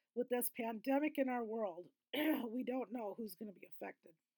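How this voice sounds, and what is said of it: Strained, failing voice. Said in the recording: “losing my voice”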